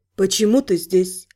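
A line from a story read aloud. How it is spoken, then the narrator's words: Quiet question. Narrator (Russian): негромко поинтересовалась моя собеседница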